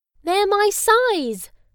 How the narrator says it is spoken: Bella cried happily

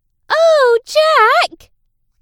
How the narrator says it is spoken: the girl playing Jack's mum cried

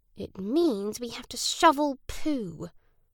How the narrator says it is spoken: Naz grumbled

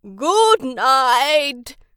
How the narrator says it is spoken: his great-granddad yelled

